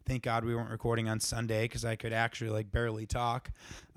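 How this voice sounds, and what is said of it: Slightly raspy voice. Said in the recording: “my voice is a little raspy. ... my yelling”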